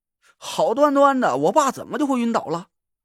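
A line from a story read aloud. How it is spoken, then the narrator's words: Sighing. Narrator (Chinese): 我叹了口气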